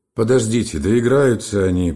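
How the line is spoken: Angry. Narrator (Russian): прибавил Гольдберг сердито

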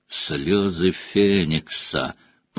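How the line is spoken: Thoughtful drawl. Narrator (Russian): протянул Реддл в задумчивости

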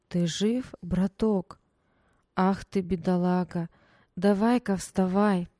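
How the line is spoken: Soft, slightly husky, clear. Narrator (Russian): Мягкий, с легкой хрипотцой голос отчетливо произнес

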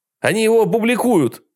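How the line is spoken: Desperate shout. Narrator (Russian): в отчаянии крикнул Майк

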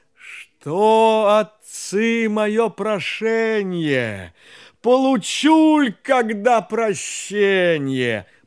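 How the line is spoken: Sighing whale. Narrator (Russian): Чудо-юдо, рыба-кит, так вздохнувши, говорит

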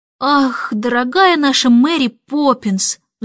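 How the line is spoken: Sighing. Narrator (Russian): вздохнул Майкл

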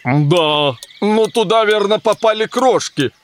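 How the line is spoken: Grumbling. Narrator (Russian): проворчал болванчик

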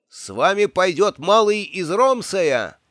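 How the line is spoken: Young archer shouting. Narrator (Russian): крикнул молодой лучник

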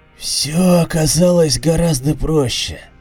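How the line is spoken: Creaky male voice. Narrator (Russian): проскрипел мужской голос

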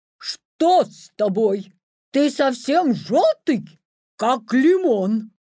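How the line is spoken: Horrified shout. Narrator (Russian): в ужасе закричал

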